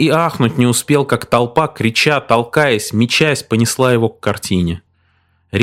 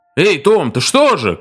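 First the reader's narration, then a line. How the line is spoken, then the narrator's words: Shout. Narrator (Russian): крикнул Григсби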